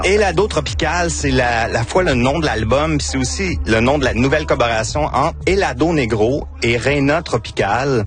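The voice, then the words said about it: Victoriaville Quebec French accent. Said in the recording (French): “c'est mon accent de Victoriaville”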